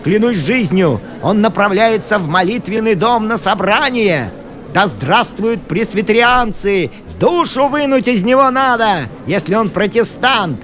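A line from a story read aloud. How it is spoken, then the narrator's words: Crowd yelling. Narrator (Russian): орали другие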